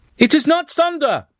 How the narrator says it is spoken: the voice yelled

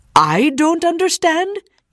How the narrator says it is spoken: yelled the man

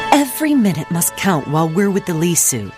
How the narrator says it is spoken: Belle exclaimed

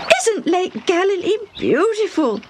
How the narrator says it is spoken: Debbie exclaimed

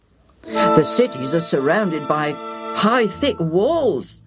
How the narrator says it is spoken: the 10 spies moaned

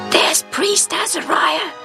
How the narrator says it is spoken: says in a loud whisper

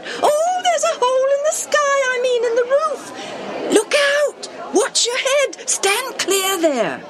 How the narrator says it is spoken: They squealed, called out

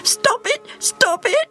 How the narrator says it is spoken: screamed at him

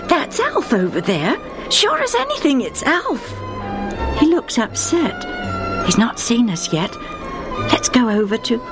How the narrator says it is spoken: Joe said excitedly

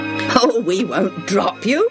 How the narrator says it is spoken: said Reuben

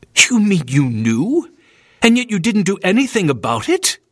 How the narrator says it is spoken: William snapped indignantly

